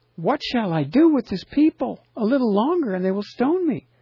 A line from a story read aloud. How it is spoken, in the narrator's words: Moses cried out to Jehovah, saying